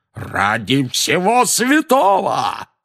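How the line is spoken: Roaring. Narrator (Russian): взревел дядя Вернон

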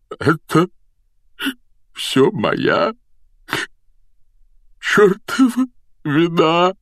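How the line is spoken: Tearful, strained. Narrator (Russian): выдавил он сквозь слезы

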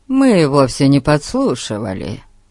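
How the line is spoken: Calm reply. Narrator (Russian): спокойно ответил Фати

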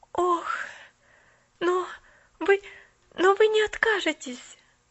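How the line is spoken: Panicked pleading. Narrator (Russian): взмолилась Поллианна в мгновенной панике

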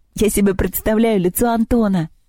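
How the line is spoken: Laughing. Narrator (Russian): смеялась Лёля

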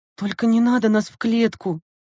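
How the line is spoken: Pleading. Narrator (Russian): взмолилась Лена

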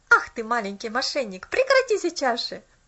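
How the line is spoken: Laughing. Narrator (Russian): Рассмеялся он

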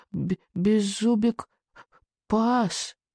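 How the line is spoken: Barely audible. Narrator (Russian): чуть слышно произнес он

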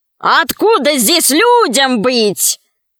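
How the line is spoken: Laughing robber. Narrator (Russian): засмеялся разбойник

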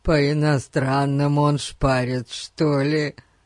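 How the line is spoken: Laughing. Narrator (Russian): Сказал Эрн, смеясь собственной шутке

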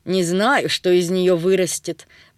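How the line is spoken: Grandmother grumbling. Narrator (Russian): проворчала бабушка

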